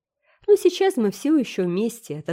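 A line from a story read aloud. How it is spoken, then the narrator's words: Cheerful reply. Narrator (Russian): отозвалась Энн бодро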